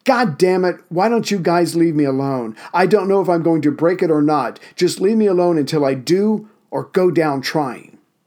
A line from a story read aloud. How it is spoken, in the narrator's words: Boynton, finally having a perceived enemy in front of him, shouted